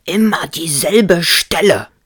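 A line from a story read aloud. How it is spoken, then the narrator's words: Shouting. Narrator (German): schrie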